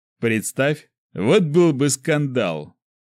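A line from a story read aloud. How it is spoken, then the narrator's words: Laughing. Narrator (Russian): Николай рассмеялся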